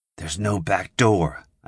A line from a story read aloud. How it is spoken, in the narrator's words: I whispered